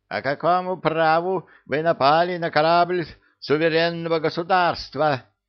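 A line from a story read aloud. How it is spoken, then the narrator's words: Shrill scream. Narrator (Russian): визгливо завопил капитан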